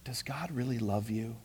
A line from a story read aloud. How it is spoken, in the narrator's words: the serpent whispered